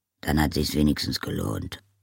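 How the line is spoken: Murmured. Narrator (German): murmelte Oma Wetterwachs

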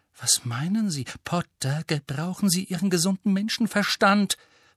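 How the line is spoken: Hissing. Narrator (German): fauchte Professor McGonagall

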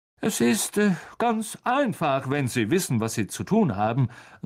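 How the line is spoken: Loud voice. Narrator (German): sagte Lockhart mit lauter Stimme zu Hagrid

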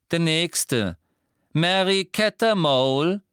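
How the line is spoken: Calling out. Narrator (German): rief Umbridge

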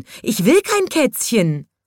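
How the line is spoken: Shouted. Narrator (German): schrie die Frau Heimchen

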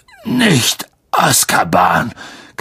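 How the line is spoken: Croaking. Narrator (German): krächzte Hagrid

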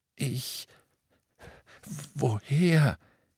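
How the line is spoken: Croaking. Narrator (German): krächzte Ollivander

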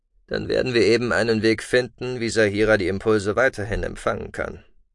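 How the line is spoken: Rough forced-out words. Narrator (German): stieß er rau hervor

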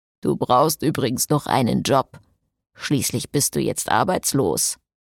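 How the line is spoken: Quiet mocking vampire. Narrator (German): spottete der Vampir leise

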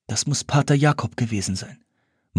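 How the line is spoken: Pale, shaken murmur. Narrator (German): murmelte Simplicity mit blasser Miene

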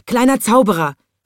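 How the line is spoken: Calling out. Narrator (German): rief er

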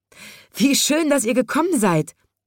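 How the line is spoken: Calling, little postman. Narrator (German): ruft der kleine Briefträger

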